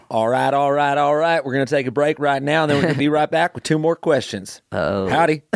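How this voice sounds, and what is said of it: Put-on Southern US accent. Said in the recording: “Let's do like Southern accent style.”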